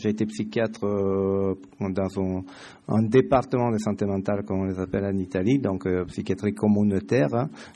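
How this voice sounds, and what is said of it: Italian accent speaking French. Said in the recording (French): “Je suis italien, ça vous avez pu le comprendre dans mon accent.”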